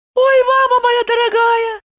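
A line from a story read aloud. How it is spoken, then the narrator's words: Squeak. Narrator (Russian): пискнула Евдокия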